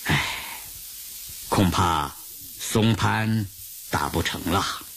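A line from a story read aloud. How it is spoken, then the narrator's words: Soft sigh. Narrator (Chinese): 毛泽东轻轻叹了一口气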